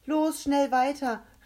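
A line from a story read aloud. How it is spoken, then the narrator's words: Called out urgently. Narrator (German): rief Rebecca Grisby zu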